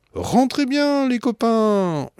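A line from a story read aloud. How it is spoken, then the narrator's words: Yelling into the distance. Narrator (French): hurle-t-il à la montgolfière colorée qui s'éloigne déjà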